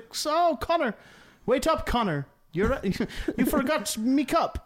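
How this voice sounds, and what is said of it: Put-on Irish accent. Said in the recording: “accent? ... He's Scottish? ... Or Irish? ... No, he's Irish.”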